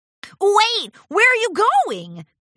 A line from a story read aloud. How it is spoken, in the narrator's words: Rainbow Dash shouted after her